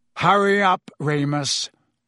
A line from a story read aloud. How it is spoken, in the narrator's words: snarled Black, who was still watching Scabbers with a horrible sort of hunger on his face